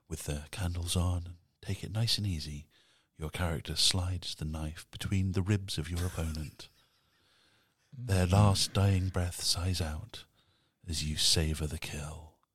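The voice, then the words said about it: Sultry, seductive narrator voice. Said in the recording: “someone with a nice English accent to do it ... I can even do it in my sexy voice or my non-sexy voice”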